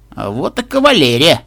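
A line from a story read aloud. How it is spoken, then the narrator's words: Bewildered drawl. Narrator (Russian): растерянно протянул мистер Оуэнс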